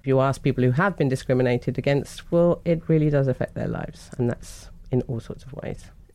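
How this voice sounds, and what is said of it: British accent. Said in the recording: “as you can tell from my voice, I'm very British”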